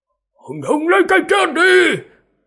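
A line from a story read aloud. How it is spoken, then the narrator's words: Old man's loud shout. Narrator (Vietnamese): Lão già thấp người hét lớn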